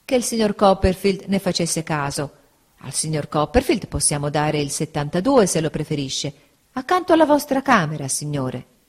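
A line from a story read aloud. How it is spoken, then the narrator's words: Waiter, apologetic tone. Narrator (Italian): rispose il cameriere sempre in tono di scusa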